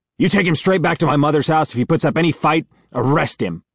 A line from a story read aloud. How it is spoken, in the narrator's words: yells at Todd